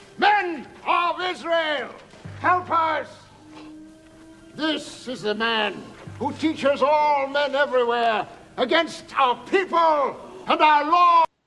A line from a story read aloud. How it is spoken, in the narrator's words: shouting